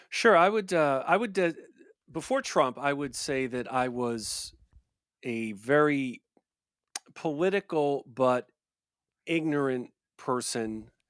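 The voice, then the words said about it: Slight New York accent. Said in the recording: “I'm from New York originally, actually, Westchester County... as your listeners can hear, you never lose the accent... A little bit there.”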